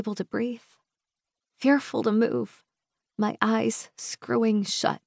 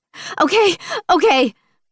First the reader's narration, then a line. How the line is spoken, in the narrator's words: I blurt